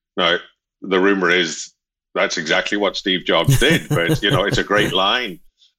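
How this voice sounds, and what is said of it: Slight Northern Irish accent. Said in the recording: “some of you might pick up a hint of an accent from me ... I'm told there's at least a modicum ... It's Northern Irish anyway ... I still hang on to it.”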